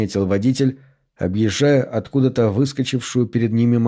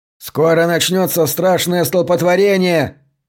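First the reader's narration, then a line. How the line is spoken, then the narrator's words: Shout. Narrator (Russian): крикнул Симпсон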